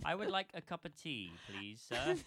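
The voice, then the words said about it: Stereotypical English accent. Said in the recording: “I can do stereotypical English and that is it.”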